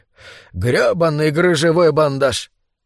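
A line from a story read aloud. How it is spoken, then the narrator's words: Exclaiming, then desperate laughter. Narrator (Russian): воскликнул он, потом рассмеялся, весело и в то же время в отчаянии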